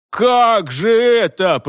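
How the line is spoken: Moan. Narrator (Russian): простонал Хуги

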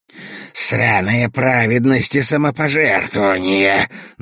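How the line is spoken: Hoarse wheeze. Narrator (Russian): наконец просипела она

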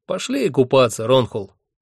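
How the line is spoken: Cheerful suggestion. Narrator (Russian): весело предложил мне Хехельф

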